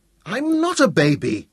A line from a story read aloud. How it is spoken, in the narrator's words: Dorian protested furiously